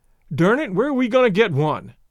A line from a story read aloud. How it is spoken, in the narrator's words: Lane blurted out